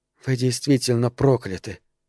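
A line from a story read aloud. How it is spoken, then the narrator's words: Whisper. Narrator (Russian): прошептала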